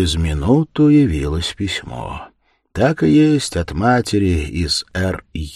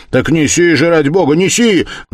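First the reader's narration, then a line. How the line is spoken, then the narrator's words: Shouted in agitation. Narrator (Russian): закричал весь в волнении Раскольников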